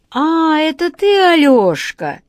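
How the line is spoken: Joyful exclamation. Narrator (Russian): радостно воскликнул Владимир Владимирович

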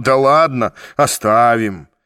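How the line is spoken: Embarrassed laughing. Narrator (Russian): Вор сконфуженно засмеялся и сказал

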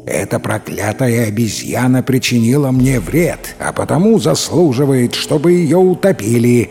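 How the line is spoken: Answered menacingly. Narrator (Russian): ответил незнакомец, грозно сдвинув брови

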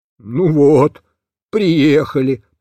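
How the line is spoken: Grumbling. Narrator (Russian): проворчал Бобиш

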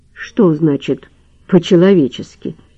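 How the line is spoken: Plain. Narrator (Russian): зачем-то спросил Лавровский

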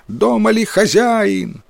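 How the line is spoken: Loud shout. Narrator (Russian): кто-то громко прокричал

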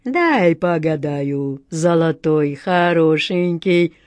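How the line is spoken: Deep voice, fortune-teller. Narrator (Russian): басом сказала гадалка

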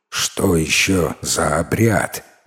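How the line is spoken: Displeased grumble. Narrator (Russian): недовольно пробурчал лесоруб

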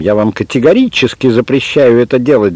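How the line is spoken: Shouting. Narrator (Russian): закричал он

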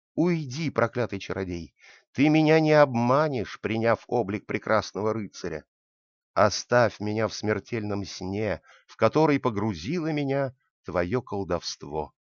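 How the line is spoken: Angry exclamation, just awakened woman. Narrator (Russian): Спящая красавица проснулась, поспешно гневно воскликнула

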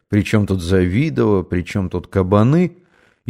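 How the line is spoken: Muttering. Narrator (Russian): Ахметьев стал бормотать

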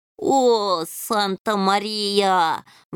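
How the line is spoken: Howl. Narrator (Russian): взвыл полосатый

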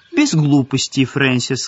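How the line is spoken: Cheerful. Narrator (Russian): сказала Марго весело

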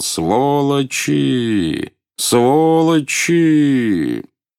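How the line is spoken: Drawn-out shouting. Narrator (Russian): Он протяжно кричал

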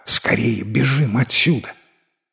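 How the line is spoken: Urgent whisper. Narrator (Russian): фея прошептала

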